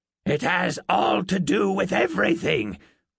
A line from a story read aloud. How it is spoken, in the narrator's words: the old woman barked and coughed again